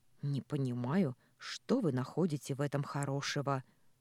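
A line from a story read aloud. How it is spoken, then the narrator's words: Grumble. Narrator (Russian): пробурчала я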